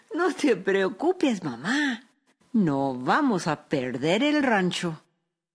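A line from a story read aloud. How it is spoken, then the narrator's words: Laughing, lively young woman. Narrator (Spanish): su hija Araceli, que era una joven lista y muy viva, se rió y dijo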